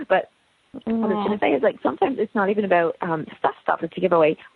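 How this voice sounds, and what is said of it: Hoarse, sore-throated voice. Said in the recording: “I'm losing my voice. It's really, really sore ... It hurts to swallow.”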